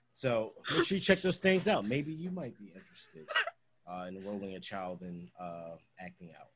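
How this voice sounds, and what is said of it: Official customer-service voice. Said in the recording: “tone of voice, so, and it sounds very official ... that's my work voice ... that's a customer service voice”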